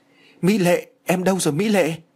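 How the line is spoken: Shocked cry. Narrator (Vietnamese): anh chàng đã bàng hoàng kêu lên

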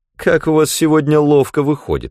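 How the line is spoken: Laughing, teasing. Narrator (Russian): смеялась она, поддразнивая Клайда

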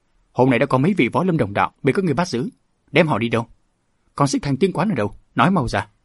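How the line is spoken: Shouted demand. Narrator (Vietnamese): Đỗ Ngọc quát hỏi

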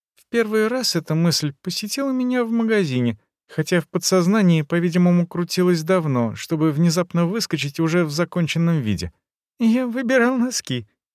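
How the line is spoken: Giggle. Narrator (Russian): хихикнул Везин

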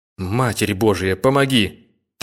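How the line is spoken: Soldier's trembling whisper. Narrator (Russian): трясущимися губами шептал солдат

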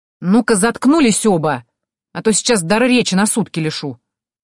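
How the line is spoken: Barking snap. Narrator (Russian): Рявкнула я

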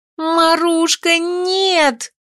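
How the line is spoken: Scream. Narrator (Russian): закричала

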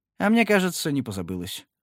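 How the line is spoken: Calm. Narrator (Russian): спокойно сказал Боудри

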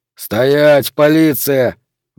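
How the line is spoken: Barked. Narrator (Russian): гаркнул лейтенант

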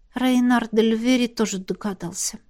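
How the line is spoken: Embarrassed mutter. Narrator (Russian): пробормотала, чувствуя себя полной идиоткой

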